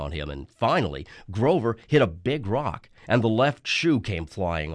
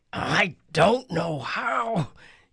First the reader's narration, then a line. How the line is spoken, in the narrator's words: he panted